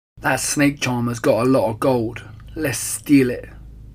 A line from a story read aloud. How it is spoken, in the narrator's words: growled